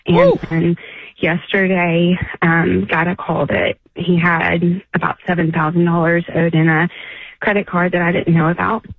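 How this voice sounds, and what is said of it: Shaky, nervous voice. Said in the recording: “my voice is shaking ... that shaking in your voice”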